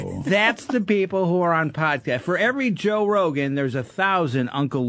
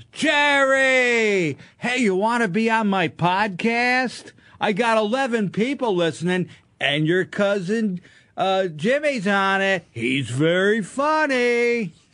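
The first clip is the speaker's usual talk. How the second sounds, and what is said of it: Impression of Uncle Leo from Seinfeld. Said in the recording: “Your Uncle Leo is very good. ... That is a very good impression of that. Very good.”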